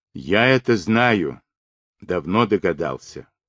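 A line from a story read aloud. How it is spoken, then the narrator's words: Muffled, turned away. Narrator (Russian): глухо уронил Демидов, отвернувшись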